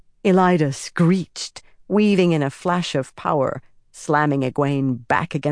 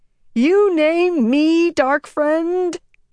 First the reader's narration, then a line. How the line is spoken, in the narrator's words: Elida screamed